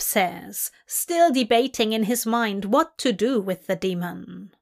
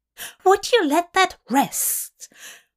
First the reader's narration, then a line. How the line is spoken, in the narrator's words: Aziraphale says, his voice higher than usual